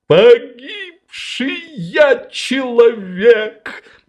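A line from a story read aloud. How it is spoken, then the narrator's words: Sobbing. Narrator (Russian): зарыдал сосед Швейка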